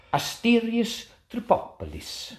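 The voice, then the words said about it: Poor put-on Italian-sounding accent. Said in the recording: “Do that accent again ... slightly more Italian than Greek. But poor Italian as well.”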